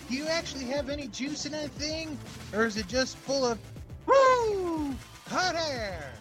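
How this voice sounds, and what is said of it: Ric Flair impression. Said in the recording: “This is the Ric Flair impersonation.”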